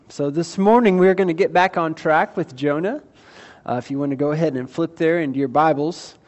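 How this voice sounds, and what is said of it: Voice sounds a little off, unwell. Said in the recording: “my voice might sound a little off. I am still recovering from some stuff earlier in the week”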